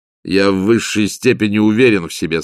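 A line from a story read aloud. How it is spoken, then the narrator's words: Plain. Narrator (Russian): сказал граф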